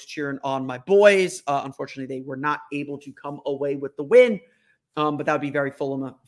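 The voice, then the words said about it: Hoarse, strained voice. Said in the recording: “my voice sounds a little hoarse ... lost my voice”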